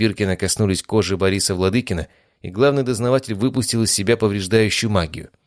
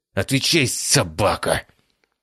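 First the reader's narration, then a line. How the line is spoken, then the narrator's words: Growl through clenched teeth. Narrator (Russian): Стиснув зубы, прорычал Биркин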